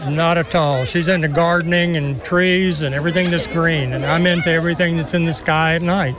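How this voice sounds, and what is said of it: Texan accent. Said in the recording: “the accent. Where are you from, sir? ... Texas.”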